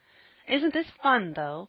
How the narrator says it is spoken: cried Jasper

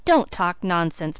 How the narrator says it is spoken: protested Felicity sharply

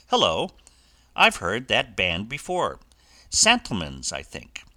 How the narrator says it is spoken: Joy suddenly broke off in the middle of an eloquent sentence, exclaiming

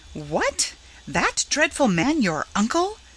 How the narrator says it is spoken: she had exclaimed

